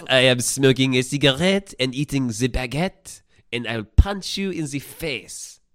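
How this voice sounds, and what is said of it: Loud put-on French accent. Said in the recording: “I sounded French. ... Very loud Frenchman.”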